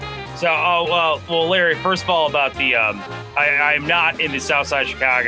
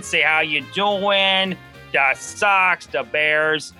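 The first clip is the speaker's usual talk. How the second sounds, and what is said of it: Put-on Chicago accent. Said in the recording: “I got to talk in my Chicago accent”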